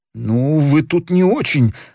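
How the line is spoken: Trembling voice. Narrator (Russian): дрожащим голосом сказал Мордотенков

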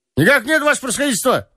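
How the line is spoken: Shouted even louder. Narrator (Russian): крикнул он еще громче

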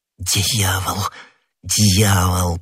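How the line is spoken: Muttered. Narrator (Russian): пробормотал Д'Артаньян

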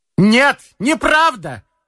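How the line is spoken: Loud shout. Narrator (Russian): громко крикнул Назанский

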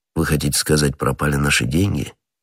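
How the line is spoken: Calm correction. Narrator (Russian): спокойно поправил его Атос

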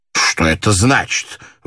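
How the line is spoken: Inspector exclaiming. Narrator (Russian): воскликнул инспектор

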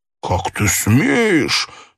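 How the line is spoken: Angry exclamation. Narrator (Russian): злобно воскликнул Вильям

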